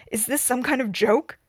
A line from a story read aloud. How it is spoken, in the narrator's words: He snarled